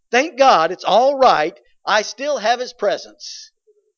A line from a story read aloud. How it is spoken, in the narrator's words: he said, or joyfully he exclaimed